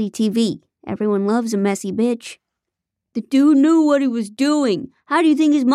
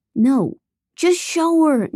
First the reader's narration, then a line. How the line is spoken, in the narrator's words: Nate pleaded